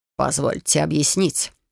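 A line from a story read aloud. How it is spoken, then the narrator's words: Amused snort. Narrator (Russian): хмыкнул он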